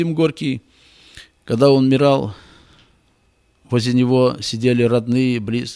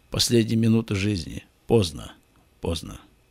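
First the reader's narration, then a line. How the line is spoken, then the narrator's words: Whisper. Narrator (Russian): Бальзак, например, шептал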